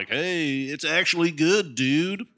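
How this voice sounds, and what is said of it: Dumb-sounding movie reviewer voice. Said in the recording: “my impression of a movie reviewer. You sound dumb.”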